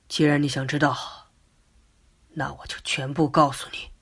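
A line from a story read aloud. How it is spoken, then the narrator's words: Sighing. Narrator (Chinese): 老吴一边叹息一边说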